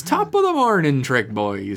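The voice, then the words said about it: Put-on Irish accent. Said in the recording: “Oh, now he's Irish, okay. ... Pretty good.”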